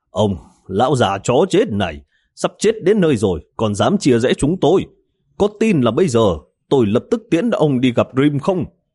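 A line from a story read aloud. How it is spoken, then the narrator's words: Loud angry scolding. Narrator (Vietnamese): Miêu Khôn lớn tiếng mắng chửi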